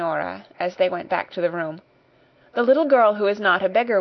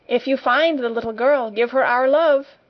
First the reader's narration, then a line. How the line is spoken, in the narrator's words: shouted Guy Clarence